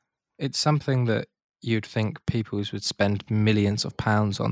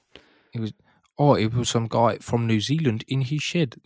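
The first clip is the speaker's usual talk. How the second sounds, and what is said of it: Poor put-on New Zealand accent. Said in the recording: “That was a terrible, terrible accent.”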